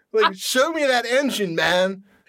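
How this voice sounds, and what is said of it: Dude bro voice. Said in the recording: “do this dude bro voice”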